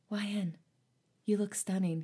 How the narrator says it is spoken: he whispered

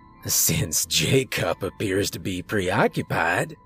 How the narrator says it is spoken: Creole said with a chuckle

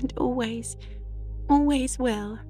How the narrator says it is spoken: sobbed Diana

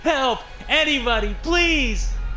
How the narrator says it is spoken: I screamed

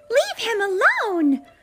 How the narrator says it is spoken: Clara shouted at the wicked mice

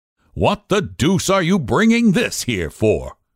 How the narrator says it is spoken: said sharply

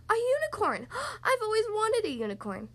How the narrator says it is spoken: She gasps

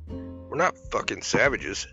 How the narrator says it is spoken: said Alicia

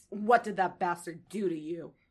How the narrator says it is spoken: She growls in her face

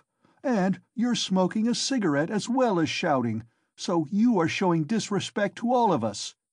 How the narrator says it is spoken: cried Raskolnikov

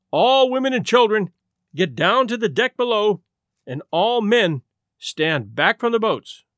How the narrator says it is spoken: an officer came along from the first-class deck and shouted above the noise of escaping steam

